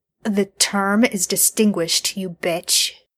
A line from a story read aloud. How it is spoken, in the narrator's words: Dean hisses